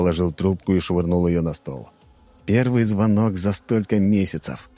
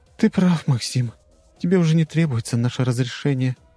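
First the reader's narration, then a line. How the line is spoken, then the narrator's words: Sigh. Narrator (Russian): вздохнула она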